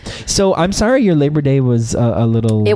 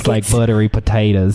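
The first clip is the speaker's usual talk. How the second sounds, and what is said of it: Put-on Southern accent. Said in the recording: “I'm using a Southern accent.”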